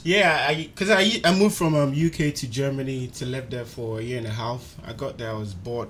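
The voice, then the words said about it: Ghanaian English accent. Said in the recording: “Officially, I'm Ghanaian. listen to this accent... So this one is the Ghana English one... This is a typical Banche English... English, Ghanaian type... Ghanaian type English.”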